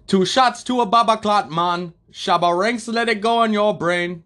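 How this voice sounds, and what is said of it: American rapper doing Jamaican accent. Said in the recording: “Okay, he's American, but he's doing... He's doing the actual Jamaican accent.”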